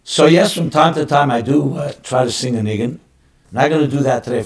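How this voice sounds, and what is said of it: Hoarse, strained voice. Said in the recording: “I'm a bit hoarse, as you can tell. No cold, it's just I was speaking over Shabbos for a long time, so my voice went a bit”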